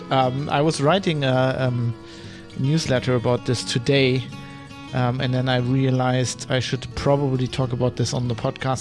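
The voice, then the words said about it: Congested voice from a cold. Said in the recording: “you might hear it in my voice ... I'm not completely uh, fit. I'm a bit under the weather ... It's just a cold”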